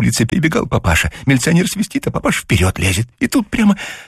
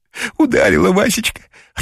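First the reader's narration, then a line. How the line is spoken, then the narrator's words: Joyful whisper. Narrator (Russian): радостно зашептала Зося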